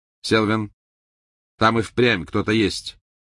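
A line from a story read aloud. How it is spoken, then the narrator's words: Sharp voice. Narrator (Russian): резким голосом произнес второй волшебник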